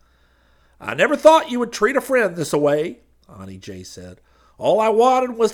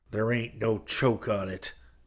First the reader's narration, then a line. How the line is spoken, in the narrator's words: Hayes snarled